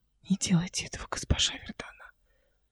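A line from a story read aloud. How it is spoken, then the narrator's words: Hoarse rasp. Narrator (Russian): прохрипела Мараса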